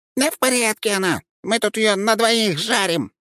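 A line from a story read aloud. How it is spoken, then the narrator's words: Squeaky imp, crude joke. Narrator (Russian): пропищал чертила сальную шутку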